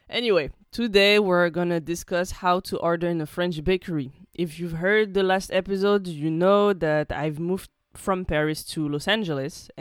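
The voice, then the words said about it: Unusually deep, sick-sounding voice. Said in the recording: “I'm sorry for my deep voice. ... I caught a cold, like a bad cold”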